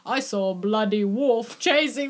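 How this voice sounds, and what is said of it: Bad put-on British accent. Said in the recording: “a British accent ... He's, like, in and out of it in the same sentence ... cringe level bad”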